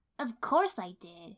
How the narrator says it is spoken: she said impatiently

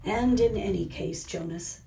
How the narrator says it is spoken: the giver sighed

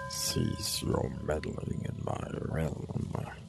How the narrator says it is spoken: it said in a strange accent Itara had never heard before

